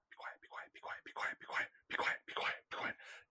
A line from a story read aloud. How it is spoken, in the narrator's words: the figure of a man, like hunched over, just cowering, and just whispering to himself